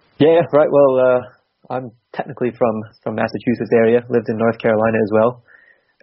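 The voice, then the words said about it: Noticeable interesting accent. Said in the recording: “you have quite an interesting accent”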